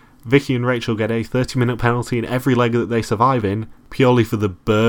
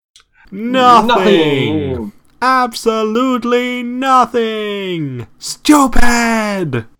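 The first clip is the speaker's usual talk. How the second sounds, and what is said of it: Imitates a movie character's shouting voice. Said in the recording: “Is that your impression of the guy from UHF?”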